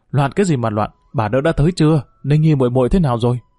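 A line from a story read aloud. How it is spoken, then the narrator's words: Cold snort, loud shout. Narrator (Vietnamese): Tào Dĩnh hừ lạnh một tiếng liền quát lớn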